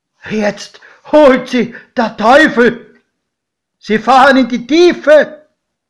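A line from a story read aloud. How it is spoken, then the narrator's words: Screaming. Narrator (German): schrie mein Pate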